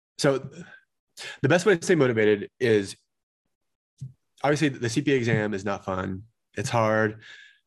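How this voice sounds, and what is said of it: Slightly strained voice. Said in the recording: “My voice is a little strained.”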